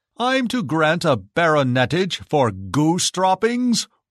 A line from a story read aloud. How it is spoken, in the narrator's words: roared the Emperor